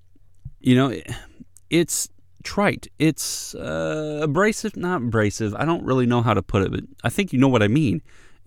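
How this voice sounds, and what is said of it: Strained, fading hoarse voice. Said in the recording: “I'm losing my voice already”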